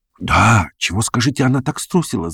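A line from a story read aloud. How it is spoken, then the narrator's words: Young man whispering. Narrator (Russian): зашептал молодой человек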